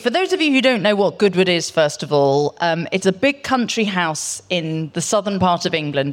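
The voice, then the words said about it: Non-local accent, different from hosts. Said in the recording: “you can tell that she is not from Carmel. The accent is a little different.”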